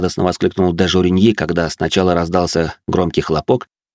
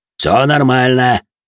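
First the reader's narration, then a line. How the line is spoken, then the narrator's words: Loud deep bass. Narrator (Russian): громко пробасил Жуль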